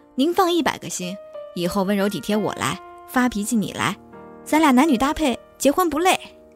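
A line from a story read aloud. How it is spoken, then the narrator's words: Loud, anxious. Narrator (Chinese): 宋父生怕他要逃走一般，大声说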